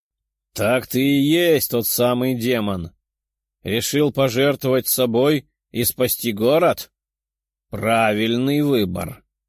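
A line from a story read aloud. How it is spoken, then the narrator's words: Loud, giant knight. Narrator (Russian): громко заявил 2,5-метровый рыцарь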